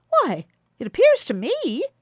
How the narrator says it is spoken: cried Quicksilver

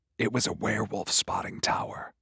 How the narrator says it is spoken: whispered

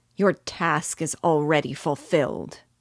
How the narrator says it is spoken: I exclaimed

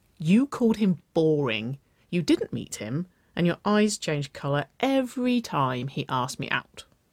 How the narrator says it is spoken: Waverley giggled

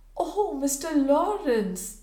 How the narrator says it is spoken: exclaimed his hostess, trembling

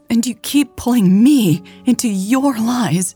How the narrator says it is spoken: Mary said shakily, tears brimming in her eyes

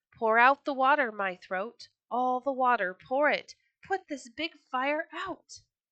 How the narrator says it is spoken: the little small rooster cried

